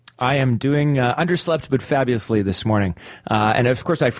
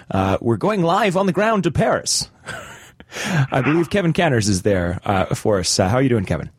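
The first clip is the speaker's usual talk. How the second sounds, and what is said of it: Imitates a TV news anchor. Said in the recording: “my CNN impression.”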